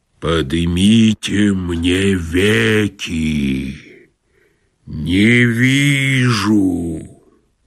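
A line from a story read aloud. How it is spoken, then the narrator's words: Deep underground voice. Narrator (Russian): сказал подземным голосом Вий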